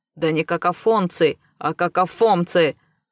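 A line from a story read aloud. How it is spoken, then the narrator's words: Sudden growl. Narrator (Russian): рыкнул неожиданно Рэй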